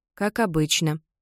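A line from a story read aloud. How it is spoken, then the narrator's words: Quiet reply. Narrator (Russian): тихо отвечает Вайолет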